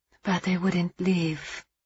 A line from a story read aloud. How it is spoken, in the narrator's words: she whispered knowingly